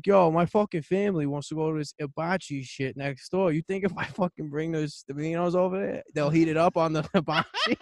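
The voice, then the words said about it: Put-on New York accent. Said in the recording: “I talk with like a real New York accent.”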